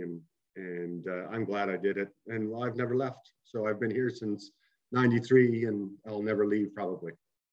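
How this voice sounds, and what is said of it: Prince Edward Island accent. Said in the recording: “I hear that Islander accent coming through ... Clear as day. It's clear as day ... my accent has changed”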